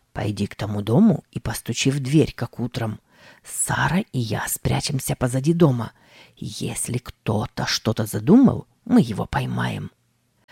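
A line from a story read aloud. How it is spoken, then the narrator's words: Whispered command. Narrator (Russian): Тим шепотом скомандовал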